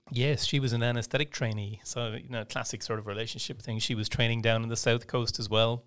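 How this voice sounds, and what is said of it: Soft Irish accent. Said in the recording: “clearly I'm very Irish. My accent is softer”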